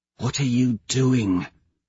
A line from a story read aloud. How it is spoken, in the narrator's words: Severo whispers in my ear